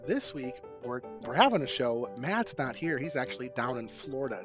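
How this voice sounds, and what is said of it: Voice still sounds slightly sick. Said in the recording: “I was under the weather. You can probably still hear it in my voice.”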